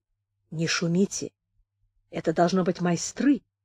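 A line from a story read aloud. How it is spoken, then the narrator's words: Whisper. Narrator (Russian): Севрюк сказал шепотом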